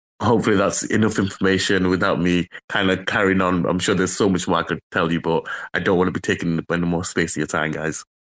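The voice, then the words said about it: Speaks with a noticeable accent. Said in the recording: “Love the accent.”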